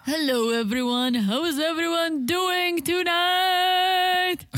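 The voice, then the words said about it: Extra deep low-pitched voice. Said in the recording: “That was extra deep ... my voice is pretty deep, and sometimes I like to go deeper”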